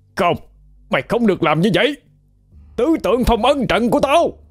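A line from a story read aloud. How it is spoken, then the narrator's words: Panicked scream. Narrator (Vietnamese): Cao Cường hét lên thất thanh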